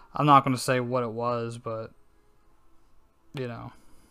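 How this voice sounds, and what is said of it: Annoyed, irritated-sounding voice. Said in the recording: “I'm a little pissed off ... You guys can probably hear it in my voice.”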